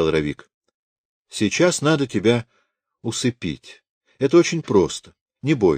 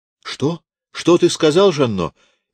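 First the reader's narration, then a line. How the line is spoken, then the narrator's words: Frightened mother. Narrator (Russian): испуганно спросила мать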